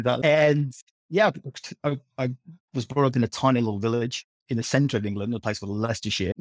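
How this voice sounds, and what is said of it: English accent. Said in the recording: “you picked up the accent there probably ... I was born in the UK”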